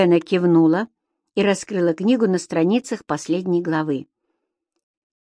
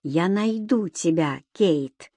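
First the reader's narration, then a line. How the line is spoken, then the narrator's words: Quiet voice. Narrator (Russian): голос звучал тихо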